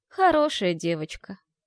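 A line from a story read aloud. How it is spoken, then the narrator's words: Ghostly sigh. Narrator (Russian): вздохнуло привидение за печкой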